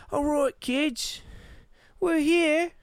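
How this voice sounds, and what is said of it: Imitated British or Scottish accent. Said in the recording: “they got a British or a Scottish accent.”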